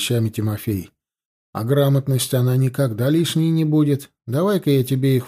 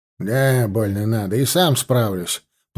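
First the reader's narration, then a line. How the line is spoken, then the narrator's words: Grumbling. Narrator (Russian): проворчал Кошелев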